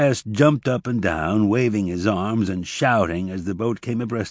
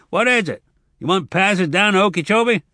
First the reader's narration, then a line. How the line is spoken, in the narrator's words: A man shouted